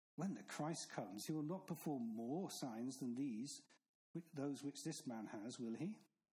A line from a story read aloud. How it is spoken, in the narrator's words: the crowd muttering